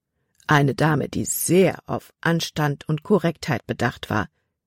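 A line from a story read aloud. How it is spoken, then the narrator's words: Plain. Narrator (German): sagte Papa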